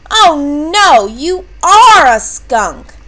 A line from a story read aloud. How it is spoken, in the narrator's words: The bear roared